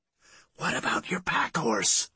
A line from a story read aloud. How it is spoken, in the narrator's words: whispered